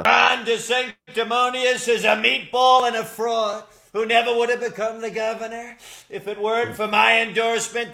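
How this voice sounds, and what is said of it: Impression of a politician. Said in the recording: “this guy Matt Friend did a impression of like a roundabout of all different like politicians”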